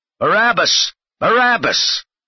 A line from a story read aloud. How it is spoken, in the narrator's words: the chief priests and the Sanhedrin counselors all shouted at the top of their voices